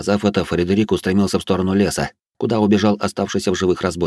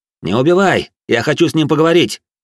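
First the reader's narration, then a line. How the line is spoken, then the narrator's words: Shouting after someone. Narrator (Russian): крикнул я вдогонку слуге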